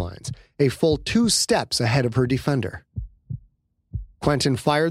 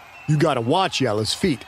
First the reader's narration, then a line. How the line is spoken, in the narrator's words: said